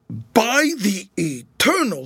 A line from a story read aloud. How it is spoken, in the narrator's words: he shouted